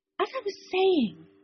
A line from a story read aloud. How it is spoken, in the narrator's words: the jailbait said urgently